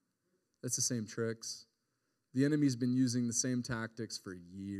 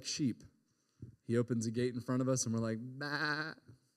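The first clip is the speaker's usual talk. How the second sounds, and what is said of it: Sheep bleat impression. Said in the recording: “that sheep impression. That was pretty good”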